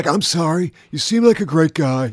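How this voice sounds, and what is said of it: Impression of a famous actor. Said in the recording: “This is me imitating this famous actor who we all know.”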